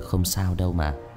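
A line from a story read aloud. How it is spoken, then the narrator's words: Young man, smiling. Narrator (Vietnamese): Người thanh niên khẽ mỉm cười rồi nói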